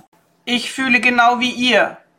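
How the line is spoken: Called out. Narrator (German): rief Umeko

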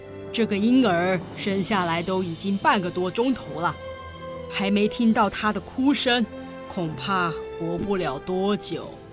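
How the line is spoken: Sighing doctor. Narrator (Chinese): 医生喟叹地说

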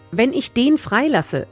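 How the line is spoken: Plain. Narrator (German): sagte Pilatus

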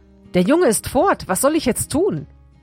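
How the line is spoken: Calling out. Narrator (German): rief

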